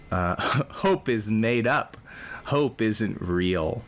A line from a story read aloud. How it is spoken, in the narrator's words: Petrel throws back their head and laughs at the moon and responds